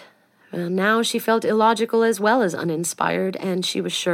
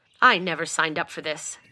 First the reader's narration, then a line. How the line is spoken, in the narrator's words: Castell said, irritably